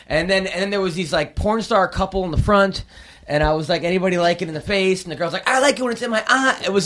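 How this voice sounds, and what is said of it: Usual voice. Nothing is said of it.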